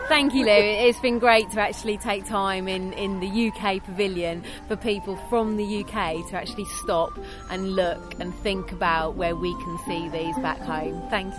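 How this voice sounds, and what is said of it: British accent. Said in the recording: “I still love the accents.”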